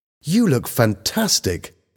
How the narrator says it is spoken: Helen exclaimed

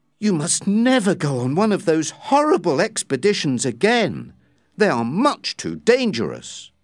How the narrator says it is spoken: she exclaimed

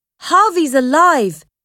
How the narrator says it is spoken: shouted

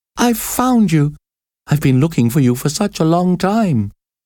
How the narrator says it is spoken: the girl cried

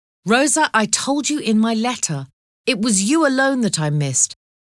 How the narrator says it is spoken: cried Van Bell

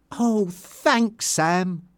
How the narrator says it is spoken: said Tanya happily

